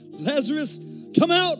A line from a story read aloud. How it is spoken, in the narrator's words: Jesus called out in a loud voice